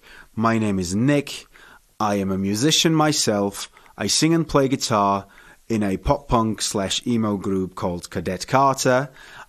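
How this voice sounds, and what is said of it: Welsh-Bavarian accented English. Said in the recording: “I am half Welsh and half Bavarian. That's where the awkward and funny accent comes from”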